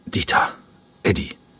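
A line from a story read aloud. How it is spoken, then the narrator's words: Croaking voice. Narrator (German): sagte er mit krächzender Stimme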